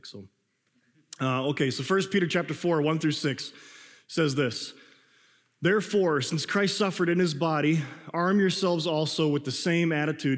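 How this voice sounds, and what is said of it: Slightly raspy, strained voice. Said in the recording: “if I'm, like, a little bit more raspy than normally is ... I, like, almost lost my voice last night”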